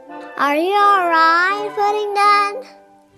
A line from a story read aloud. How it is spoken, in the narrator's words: She shouted